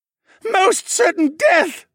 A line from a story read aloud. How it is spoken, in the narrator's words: the mage screeched